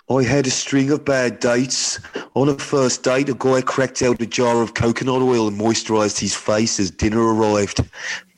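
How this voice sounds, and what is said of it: Put-on Birmingham accent. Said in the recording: “you've got to do the accent. I think she's from Birmingham. ... That's really good. ... I'm so sorry to anyone from Birmingham.”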